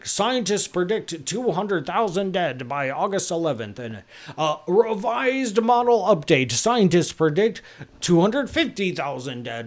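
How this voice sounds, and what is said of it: Newscaster voice impression. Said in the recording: “that's my impersonation of a newscaster ... in my head, that's what they sound like”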